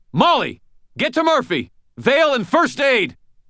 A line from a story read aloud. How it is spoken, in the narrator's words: shouted